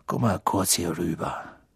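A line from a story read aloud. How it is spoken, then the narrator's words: Quiet. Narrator (German): Weasley leise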